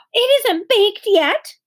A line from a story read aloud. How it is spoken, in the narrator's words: exclaimed Beezus